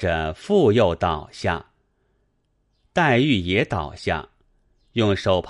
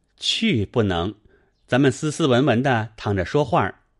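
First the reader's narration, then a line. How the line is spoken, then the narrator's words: Laughing. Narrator (Chinese): 宝玉笑道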